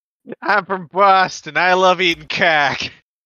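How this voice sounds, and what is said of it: Put-on Boston accent, fairly good. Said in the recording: “Let's hear your Boston accent. ... Oh, that's pretty good.”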